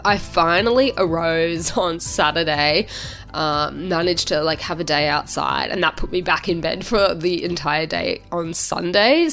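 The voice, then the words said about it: Sick-sounding voice. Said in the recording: “you can probably already tell from my voice that I am not feeling the best”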